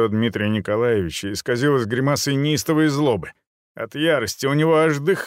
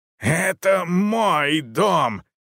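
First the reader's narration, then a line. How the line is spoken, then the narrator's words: Hoarse shout. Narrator (Russian): хрипло выкрикнул он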